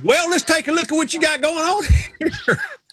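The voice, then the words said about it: Put-on Southern American accent. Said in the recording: “he understands about the Southern accent... I'm from the South... the smartest people I know have a Southern accent.”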